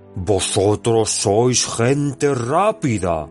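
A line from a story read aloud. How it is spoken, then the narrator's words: Plain. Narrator (Spanish): dijo Bárbol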